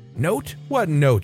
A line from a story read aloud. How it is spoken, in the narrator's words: she yelled